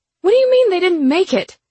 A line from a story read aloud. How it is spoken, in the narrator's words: My voice was shrill with anger